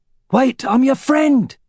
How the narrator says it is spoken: cried the man

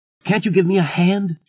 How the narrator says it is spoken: she cried angrily at him

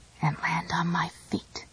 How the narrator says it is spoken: whispered

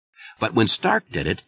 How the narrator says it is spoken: they giggled merrily, as if this were the most amusing thing under the sun

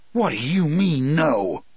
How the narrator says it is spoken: he asked me furiously

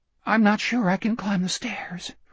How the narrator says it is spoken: Richard said, weakly querulous

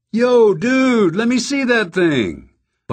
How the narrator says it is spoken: Bobby Loco shouted

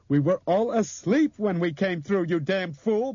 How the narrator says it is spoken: Bob shrieked into his face

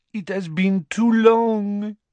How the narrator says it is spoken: she said in a throaty voice

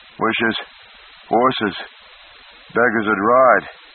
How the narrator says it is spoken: he panted back, grinning in spite of his own weariness

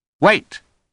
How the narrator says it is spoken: Holmes said sharply

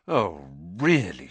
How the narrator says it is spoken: she spluttered, going rather red

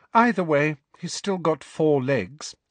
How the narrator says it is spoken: said Hermione coolly

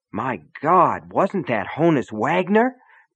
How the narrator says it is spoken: Brian gasped

